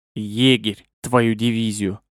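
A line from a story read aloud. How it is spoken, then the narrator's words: Muffled growl. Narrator (Russian): глухо рыкнул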